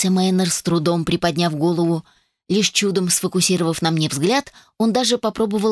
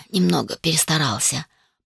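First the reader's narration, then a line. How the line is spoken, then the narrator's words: Muttering in pain. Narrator (Russian): пробормотал Тайшер и поморщился от боли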